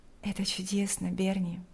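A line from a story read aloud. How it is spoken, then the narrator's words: Quiet. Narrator (Russian): тихо сказала Лика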